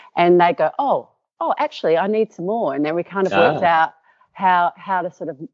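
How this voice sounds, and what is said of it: Usual voice. Nothing is said of it.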